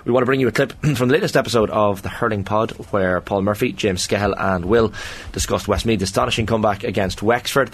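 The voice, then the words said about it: Hoarse, strained voice. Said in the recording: “My voice is absolutely gone”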